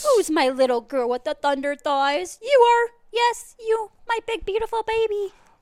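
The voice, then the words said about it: Cooing baby voice. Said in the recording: “in her baby voice”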